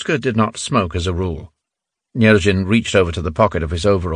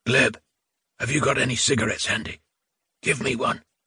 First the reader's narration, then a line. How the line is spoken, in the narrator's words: Ruska asked in a hoarse whisper